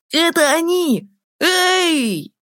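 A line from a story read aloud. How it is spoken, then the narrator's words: Boy shouting. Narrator (Russian): закричал мальчик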